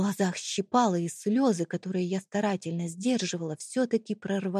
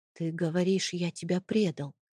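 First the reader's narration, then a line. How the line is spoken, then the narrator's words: Quiet. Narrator (Russian): тихо сказал он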